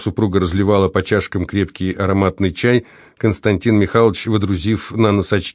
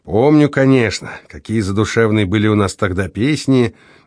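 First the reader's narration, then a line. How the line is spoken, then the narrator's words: Dreamy sigh, husband. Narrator (Russian): мечтательно вздохнул муж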